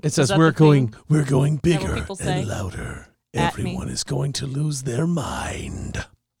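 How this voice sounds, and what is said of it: Dramatic trailer-style preview voice. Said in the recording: “I say that in my preview voice. That's my preview voice.”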